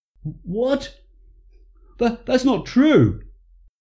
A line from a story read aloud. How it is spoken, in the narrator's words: cried Paul